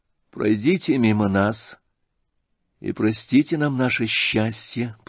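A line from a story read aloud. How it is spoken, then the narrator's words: Quiet voice, prince. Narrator (Russian): проговорил князь тихим голосом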